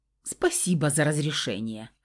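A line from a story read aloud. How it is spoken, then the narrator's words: Wry snort. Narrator (Russian): хмыкнул Фауст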